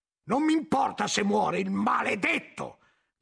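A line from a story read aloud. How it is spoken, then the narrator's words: Shouting. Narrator (Italian): gridava Guglielmo figgendo gli occhi in giro e muovendosi in modo disordinato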